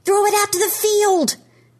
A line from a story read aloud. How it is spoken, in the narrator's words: Trevor yells, racing toward his little brother